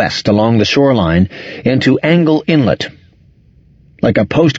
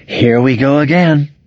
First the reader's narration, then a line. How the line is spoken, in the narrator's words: she moaned